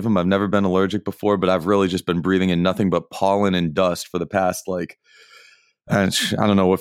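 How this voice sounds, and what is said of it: Congested, allergy-affected voice. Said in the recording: “my voice is a little substandard today because, they said I would get allergies”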